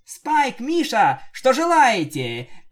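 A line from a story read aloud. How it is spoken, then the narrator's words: Joyful shout, then normal. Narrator (Russian): Пинки начала радостно кричать, а после нормально говорить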